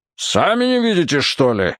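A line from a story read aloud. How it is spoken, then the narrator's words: Roaring. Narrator (Russian): взревел дядя Поль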